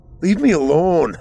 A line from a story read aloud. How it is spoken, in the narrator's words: Arthur cried out